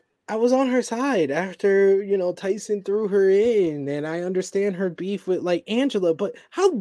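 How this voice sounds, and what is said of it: Usual voice. Nothing is said of it.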